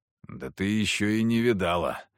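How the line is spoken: Hoarse voice. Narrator (Russian): хрипло сказал я

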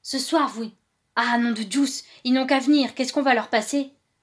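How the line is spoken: Gruff master's voice. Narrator (French): la voix naturellement rogue du maître

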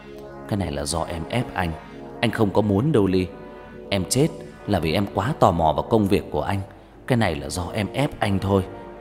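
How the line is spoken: Muttered. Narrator (Vietnamese): Hắn lẩm bẩm trong mồm

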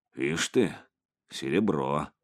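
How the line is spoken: Muttered. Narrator (Russian): пробормотал он

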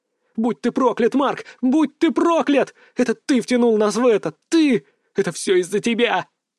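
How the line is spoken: Sobbing moan. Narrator (Russian): Она забилась в рыданиях и простонала сквозь слезы

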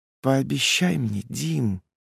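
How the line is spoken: Barely audible drawl. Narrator (Russian): протянула она еле слышно

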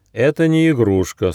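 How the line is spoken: Stern gnome. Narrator (Russian): строго сказал гномик

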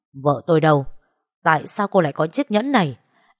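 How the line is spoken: Terrified scream. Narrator (Vietnamese): Cô ta kinh hãi hét lên, nói

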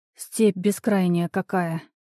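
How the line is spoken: Muttered. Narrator (Russian): пробормотала

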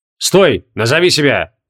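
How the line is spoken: Rough call from behind. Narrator (Russian): грубо окликнули сзади

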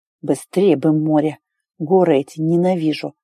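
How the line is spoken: Muttered. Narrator (Russian): пробормотал Китен

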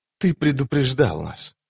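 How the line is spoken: Wistful whisper. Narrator (Russian): прошептала она пустому небу, когда на нее нахлынули воспоминания о том утре

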